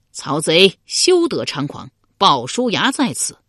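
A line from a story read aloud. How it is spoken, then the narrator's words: Loud battle cry. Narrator (Chinese): 突然转出一将，高声叫道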